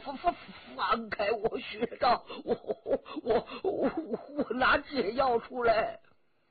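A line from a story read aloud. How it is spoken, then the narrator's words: Trembling voice. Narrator (Chinese): 他颤声着说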